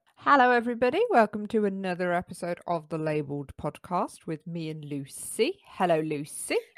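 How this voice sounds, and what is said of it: Very posh voice. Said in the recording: “You sound very posh there ... You sound like some sort of like posh lift.”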